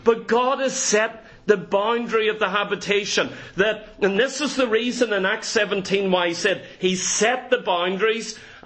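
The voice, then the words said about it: Northern Irish accent. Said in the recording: “my Northern accent ... I'm just going Northern Irish. Don't sound as beautiful as you down here.”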